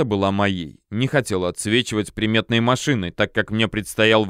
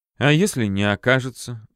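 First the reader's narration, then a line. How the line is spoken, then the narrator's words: Girl sighing. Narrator (Russian): вздохнула девушка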